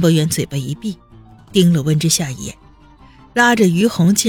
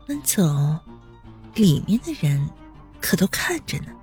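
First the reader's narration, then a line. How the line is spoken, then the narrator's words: Quiet, close. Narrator (Chinese): 温之夏突然凑近温博远，小声道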